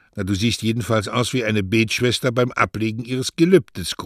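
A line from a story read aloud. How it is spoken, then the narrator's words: Grunting. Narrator (German): grunzte Doña Rosa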